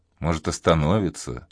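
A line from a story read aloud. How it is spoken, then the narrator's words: Quiet speech. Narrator (Russian): тихо проговорил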